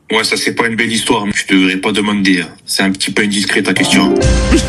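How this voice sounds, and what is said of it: Corsican accent. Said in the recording (French): “Il a un accent corse.”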